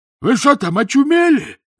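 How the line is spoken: Yelling while dangling. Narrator (Russian): заорал он по обезьяне, болтаясь в воздухе

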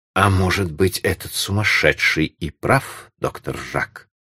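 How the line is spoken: Quiet, bitter reply. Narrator (Russian): Так же тихо, но с горькой улыбкой ответил кум Туранжо

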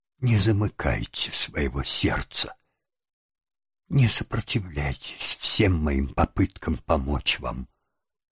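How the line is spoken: Gentle. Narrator (Russian): ласково сказала Росс

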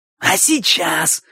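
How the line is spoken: Irritated hoarse wheeze. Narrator (Russian): раздраженно просипел Боча

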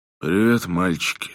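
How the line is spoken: Tired and sad. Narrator (Russian): сказал он устало и печально

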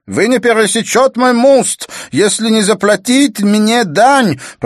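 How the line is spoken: Shouted. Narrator (Russian): прокричал он

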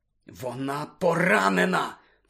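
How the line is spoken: Whispering. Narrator (Ukrainian): прошепотів Гаррі

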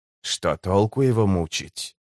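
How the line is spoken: Hesitant sigh. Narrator (Russian): Карса помедлил, затем вздохнул

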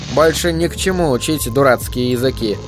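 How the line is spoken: Mumbling. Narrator (Russian): бормотал

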